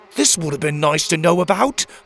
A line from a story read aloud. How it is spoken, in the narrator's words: Pockets growled